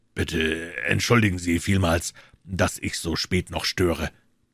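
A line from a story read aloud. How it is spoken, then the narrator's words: Deep voice. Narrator (German): begann der Fremde mit tiefer Stimme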